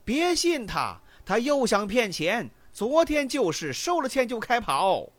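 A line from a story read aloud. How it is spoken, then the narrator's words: Cheated man crying out again. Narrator (Chinese): 昨天上过当的又叫了起来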